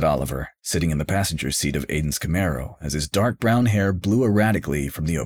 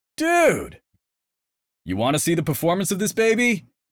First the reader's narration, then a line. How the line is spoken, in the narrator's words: Aiden hollered over the wind, fully in the moment, feeling his oats and without a care